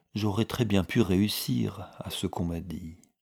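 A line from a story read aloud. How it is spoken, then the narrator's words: Very soft murmur. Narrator (French): murmura tout bas Sophie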